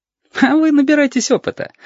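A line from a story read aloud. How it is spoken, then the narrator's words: Flippant giggle. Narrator (Russian): легкомысленно хихикнул Сашка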